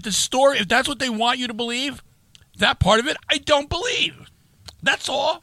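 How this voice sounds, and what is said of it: Yelling, loud angry voice. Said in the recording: “why are you yelling at”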